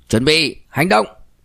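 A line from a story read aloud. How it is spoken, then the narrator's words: Loud call. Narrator (Vietnamese): lớn tiếng nói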